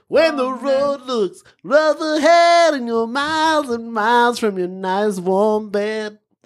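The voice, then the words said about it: Sung impression of another voice. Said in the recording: “doing an impression and singing”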